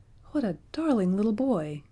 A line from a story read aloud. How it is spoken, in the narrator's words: exclaimed Roxanne, smiling radiantly